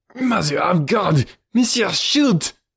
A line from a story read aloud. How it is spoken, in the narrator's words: he screamed